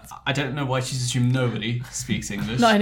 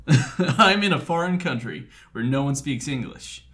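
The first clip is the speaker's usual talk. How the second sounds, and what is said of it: Put-on American accent. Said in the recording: “She's American, I think. So I'm not going to do the accent. Do you want to do the accent? ... Do the accent. ... You're quite good at the accent.”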